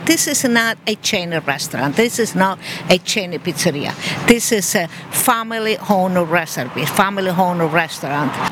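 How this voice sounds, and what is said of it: Italian accent. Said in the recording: “sorry for my accent ... How'd you say it in Italian?”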